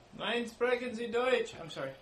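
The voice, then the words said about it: Very thick put-on French accent. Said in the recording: “He's not German. He's Russian. ... No, he's French. ... He's French-Russian. ... It's a very thick French accent. Even for the French.”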